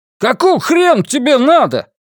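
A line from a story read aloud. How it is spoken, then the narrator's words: Yelling. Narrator (Russian): заорал он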